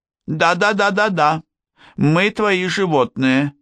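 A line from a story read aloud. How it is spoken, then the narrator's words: Joyful chatter of women. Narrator (Russian): радостно загомонили женщины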